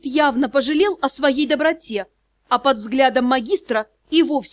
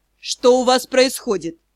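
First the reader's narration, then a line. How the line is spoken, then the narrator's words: Muffled demanding voice. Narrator (Russian): Глухим голосом потребовал ответа магистр Тьер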